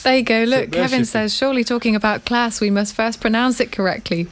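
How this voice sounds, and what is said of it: Northern English accent, flat vowels. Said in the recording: “we both flatten our vowels ... coming from the Midlands or the North ... pronouncing class in a Northern accent”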